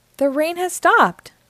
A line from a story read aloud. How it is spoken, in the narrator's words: cried Peppa